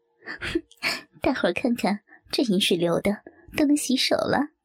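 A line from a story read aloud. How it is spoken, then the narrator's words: Laughing. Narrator (Chinese): 笑道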